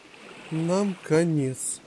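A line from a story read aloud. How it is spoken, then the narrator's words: Pirate's despairing groan. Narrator (Russian): простонал пират по имени Эзекиль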